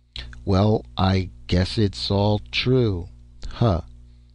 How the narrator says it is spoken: Ned Vince muttered in a flat tone

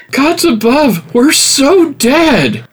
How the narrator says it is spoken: Jirina shouted over the discouraged crowd

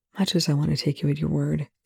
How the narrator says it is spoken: Young said quietly

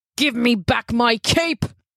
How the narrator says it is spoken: he roared

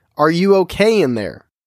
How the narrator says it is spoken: yelled again

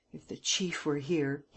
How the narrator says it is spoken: muttered

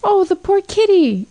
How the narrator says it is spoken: cried Gloria, sincerely moved

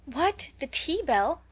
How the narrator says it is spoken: cried everybody

